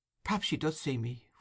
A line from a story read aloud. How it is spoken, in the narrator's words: whispered Oliver